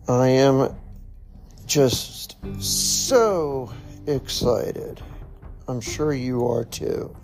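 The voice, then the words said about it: Sarcastic mock-excited delivery. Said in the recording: “You can hear it in my voice. ... No, in all seriousness”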